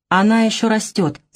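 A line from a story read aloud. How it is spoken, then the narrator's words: Stern reminder. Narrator (Russian): строго напомнила мать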